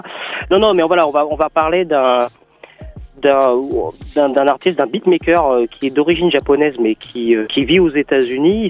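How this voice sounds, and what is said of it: French spoken with English accent. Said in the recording (French): “j'ai un accent anglais”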